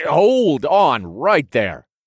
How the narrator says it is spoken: I interrupted in a loud voice

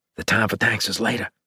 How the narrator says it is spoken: I whispered

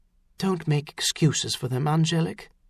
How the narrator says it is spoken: Eliza said softly

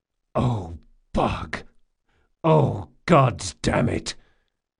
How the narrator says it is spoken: The big man groaned

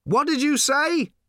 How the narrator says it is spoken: shouted Arthur

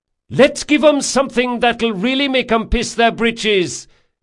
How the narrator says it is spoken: she shouted, not bothering with the speaking trumpet

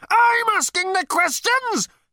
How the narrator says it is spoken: howled Number Two, his body quaking with apoplectic fury

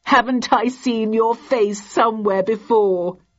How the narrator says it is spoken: he giggled

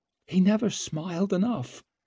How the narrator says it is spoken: whispered

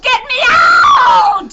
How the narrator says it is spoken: She screamed

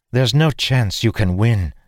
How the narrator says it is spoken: she said

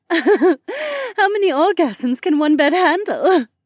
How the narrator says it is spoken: Becca giggled

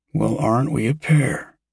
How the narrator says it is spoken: said Yosef, his voice choked, though also indicating amusement

